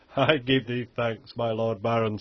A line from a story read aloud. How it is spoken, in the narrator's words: said he